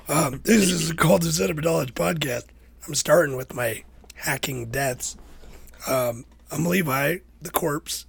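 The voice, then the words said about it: Sick, rough-sounding voice. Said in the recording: “my voice is terrible. I am definitely sick... you sound pretty bad, bud.”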